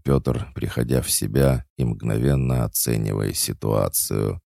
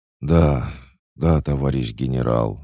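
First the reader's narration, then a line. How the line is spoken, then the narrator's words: Breathless young man. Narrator (Russian): выдохнул парень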